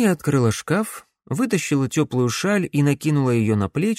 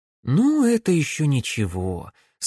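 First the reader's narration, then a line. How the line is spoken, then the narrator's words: Relieved sigh. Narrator (Russian): с облегчением вздохнула Камилла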